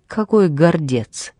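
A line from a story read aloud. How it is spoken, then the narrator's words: Laughing. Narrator (Russian): Он рассмеялся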